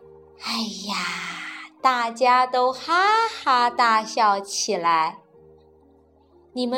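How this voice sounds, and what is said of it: Usual voice. Nothing is said of it.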